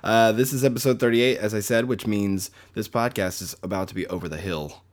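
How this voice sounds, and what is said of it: Low, just-woken-up voice. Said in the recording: “I just woke up. That's why my voice is really low ... My voice is low”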